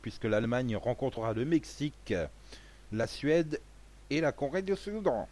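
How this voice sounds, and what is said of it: Bad put-on accent attempt. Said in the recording (French): “c'était quoi cet accent de merde là? ... Tentative.”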